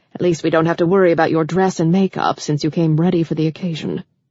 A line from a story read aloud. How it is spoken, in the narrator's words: she muttered